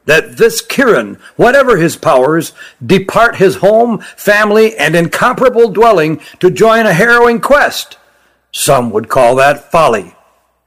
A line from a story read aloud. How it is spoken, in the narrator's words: said Spekeren, his voice rising